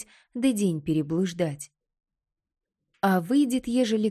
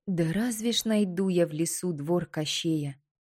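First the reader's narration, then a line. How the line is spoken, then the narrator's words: Muttering under breath. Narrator (Russian): бормотала Василиса себе под нос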